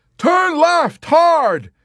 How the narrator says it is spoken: he hollered to McWatt

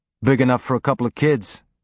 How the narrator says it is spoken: he said

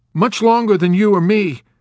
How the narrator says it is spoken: Nately blurted out lamely

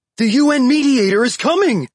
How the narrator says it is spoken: shouted to each other

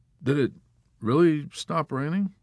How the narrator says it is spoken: Yossarian asked meekly

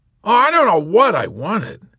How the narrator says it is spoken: Colonel Cathcart cried out in exasperation

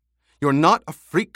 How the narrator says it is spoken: Hera snapped

